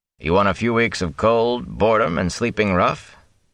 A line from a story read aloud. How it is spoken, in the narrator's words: Tam chuckled